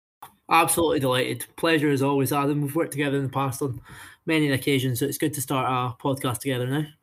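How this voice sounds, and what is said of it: Scottish Highland accent, Edinburgh twang. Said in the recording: “terrible Highland accent ... a concoction of Inverness with a little bit of Edinburgh twang from his youth back in there”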